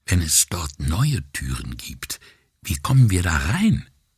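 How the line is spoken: Whisper. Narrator (German): Puccetti flüsterte

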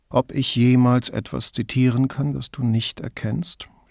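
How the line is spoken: Groaned. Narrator (German): stöhnte Brunetti

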